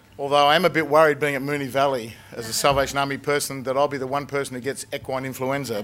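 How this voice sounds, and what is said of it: Strained, unwell-sounding voice. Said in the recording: “Excuse my voice today. It's not swine flu.”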